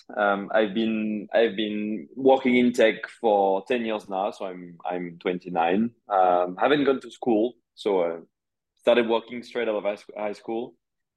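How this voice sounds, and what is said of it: French accent. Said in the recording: “I'm French, as you can hear by the accent.”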